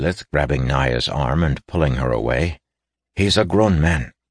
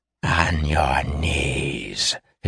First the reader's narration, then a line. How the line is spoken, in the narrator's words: hissed Theshaseth, over yet another crashing rumble